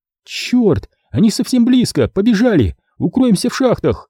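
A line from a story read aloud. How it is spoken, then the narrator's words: Alarmed exclamation. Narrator (Russian): воскликнула Шева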